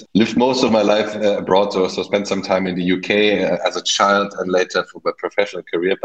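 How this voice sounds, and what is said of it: Slight German accent. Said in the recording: “German, as you might hear from my slight accent”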